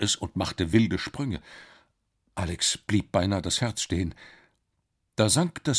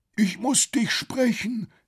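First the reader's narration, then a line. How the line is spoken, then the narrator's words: Calling out. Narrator (German): rief der Professor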